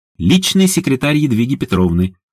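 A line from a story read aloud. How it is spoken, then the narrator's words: Brisk cheerful report. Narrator (Russian): бодро отрапортовал Даня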